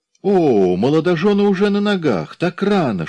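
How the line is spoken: Playful exclamation in German. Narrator (Russian): шутливо воскликнула по-немецки дородная хозяйка маленького пансиона

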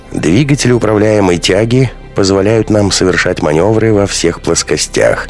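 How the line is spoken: Explaining. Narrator (Russian): спокойно ведя станцию, объясняла Алферова участникам экспедиции

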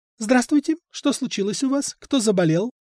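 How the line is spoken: Cheerful question. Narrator (Russian): Елена бодро спрашивает

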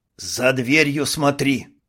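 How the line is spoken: Hiss. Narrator (Russian): прошипел Карл

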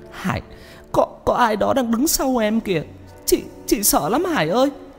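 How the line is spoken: Tearful, frightened. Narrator (Vietnamese): Chị nói trong nước mắt

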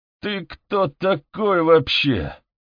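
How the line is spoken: Growl. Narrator (Russian): прорычал Спинелли

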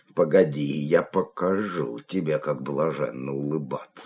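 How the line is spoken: Muttering. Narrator (Russian): бормотал он

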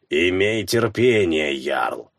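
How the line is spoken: Grumbling. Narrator (Russian): буркнула Хильда

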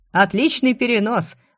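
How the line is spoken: Laughing. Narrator (Russian): рассмеялся Закери

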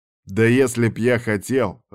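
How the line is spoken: Angry growl. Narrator (Russian): рыкнул злой Ярван

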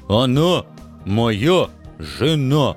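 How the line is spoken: Stern, clearly enunciated report. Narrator (Russian): Четко выговаривая каждое слово, доложил мой оруженосец, строго уставясь в осоловелые от страха глазки своей жертвы

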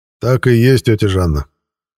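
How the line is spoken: Cheerful reply. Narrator (Russian): бодро отозвался я

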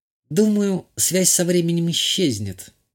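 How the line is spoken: Uncertain speech. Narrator (Russian): неуверенно произнесла Натали

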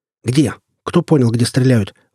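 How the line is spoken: Sharp shout. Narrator (Russian): прикрикнул я

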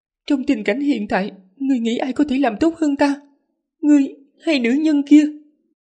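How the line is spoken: Trembling voice. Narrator (Vietnamese): Lý Ngư giọng run rẩy

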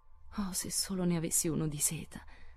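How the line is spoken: Sighing. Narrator (Italian): sospirò Meg

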